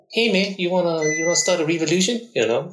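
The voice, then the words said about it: Put-on New Zealand accent, Taika Waititi. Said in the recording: “Australian English, New Zealand English ... Take the Waititi.”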